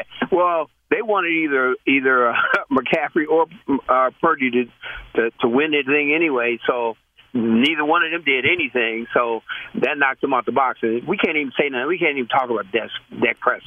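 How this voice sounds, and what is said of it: Detroit-area regional accent. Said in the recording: “where are you from with that accent? ... I'm from the Detroit area.”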